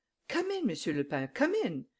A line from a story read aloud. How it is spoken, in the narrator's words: cried Madame Imbert